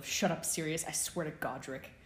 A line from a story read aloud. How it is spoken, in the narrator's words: James's acidic and muttered response